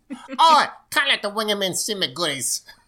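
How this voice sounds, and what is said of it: Crude put-on Cockney accent. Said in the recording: “That was a bad take on it. In my head, it's like a it's like a real crude Cockney accent.”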